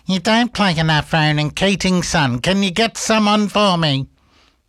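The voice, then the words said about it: Imitates his mother's voice. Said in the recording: “She doesn't really sound like that, but that's my best impersonation I can do of Shaz.”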